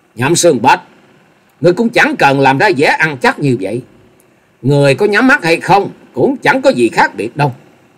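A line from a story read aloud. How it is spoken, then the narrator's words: Loud mocking laugh. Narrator (Vietnamese): Dịch Hương Trúc cười lớn giọng đầy mỉa mai nói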